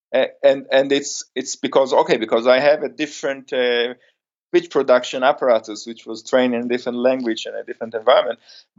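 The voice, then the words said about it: Strong non-native English accent. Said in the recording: “I speak in a very strange accent, and I guess many of our listeners probably have problems following my accent.”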